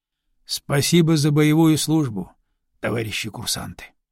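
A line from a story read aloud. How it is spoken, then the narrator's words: Quiet. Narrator (Russian): негромко сказал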